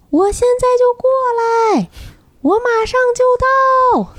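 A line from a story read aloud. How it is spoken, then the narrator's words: Shouting. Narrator (Chinese): 对面的那个男生也在喊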